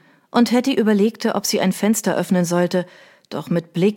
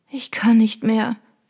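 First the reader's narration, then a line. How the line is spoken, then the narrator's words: Exhausted groan. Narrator (German): stöhnte Trudy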